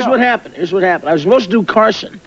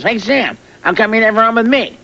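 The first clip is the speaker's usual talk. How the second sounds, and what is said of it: Bad Jay Leno impression. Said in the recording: “We're both trying to do a bad Jay Leno impression.”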